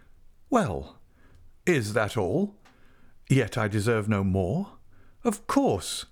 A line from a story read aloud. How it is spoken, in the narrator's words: he added with a slight laugh